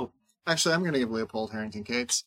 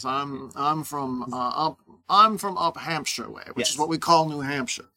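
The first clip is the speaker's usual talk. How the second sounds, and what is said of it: Put-on North Atlantic accent. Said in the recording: “a North Atlantic accent”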